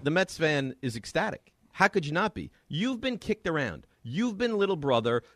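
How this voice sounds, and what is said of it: Passionate, excited speaking. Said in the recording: “you can hear the passion in my voice”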